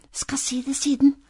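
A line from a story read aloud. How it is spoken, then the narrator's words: Embarrassed whisper. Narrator (Norwegian): hvisket lillebror, for han syntes det var så leit å fortelle når det sto flere folk i butikken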